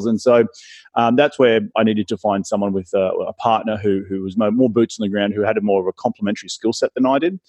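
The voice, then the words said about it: Australian accent. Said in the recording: “my Australian accent ... who's this Aussie guy calling from LA”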